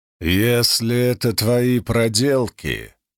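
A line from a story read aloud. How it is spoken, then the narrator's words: Growling. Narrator (Russian): прорычал Катул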